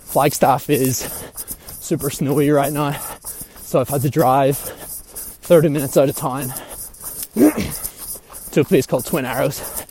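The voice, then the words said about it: Out of breath while running. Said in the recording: “I'm sure you'll hear from my voice, I'm currently doing a easy 8-mile run”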